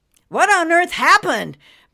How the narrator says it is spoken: Brent shouted

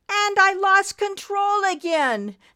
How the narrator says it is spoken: Nimbus yelled

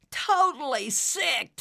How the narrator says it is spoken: Tyrone shouted back

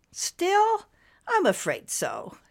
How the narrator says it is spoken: Cirrus said with a sigh

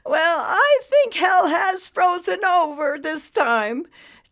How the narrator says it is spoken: chirped an older woman

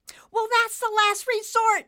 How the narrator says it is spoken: Nimbus yelled

